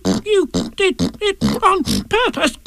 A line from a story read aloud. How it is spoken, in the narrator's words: spluttered Piglet as soon as he could speak again